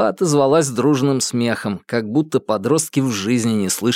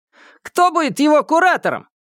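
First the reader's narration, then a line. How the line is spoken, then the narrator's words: Shout from crowd. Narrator (Russian): выкрикнули из толпы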